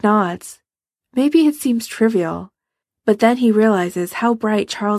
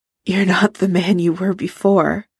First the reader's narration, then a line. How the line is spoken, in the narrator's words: Charles says hoarsely